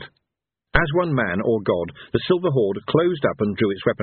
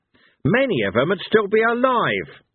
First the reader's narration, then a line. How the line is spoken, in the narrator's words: snapped Cohen